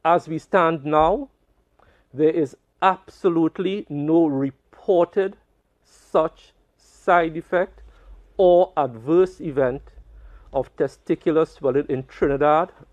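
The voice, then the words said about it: Strong, striking accent. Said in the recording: “What an accent.”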